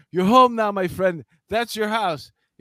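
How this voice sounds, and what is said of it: Put-on Central Asian accent. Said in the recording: “What accent was that for you?... it's very like, exotic... maybe uh, European... it was Central Asian. It was Pakistan, was Afghanistan, one of those stands.”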